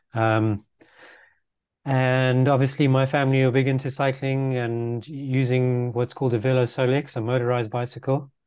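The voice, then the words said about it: Slight South African-sounding accent. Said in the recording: “I'm a Dutch Zimbabwean... I sound a bit like a South African to some people”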